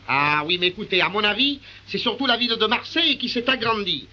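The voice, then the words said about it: Marseille French accent. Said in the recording (French): “l'accent marseillais”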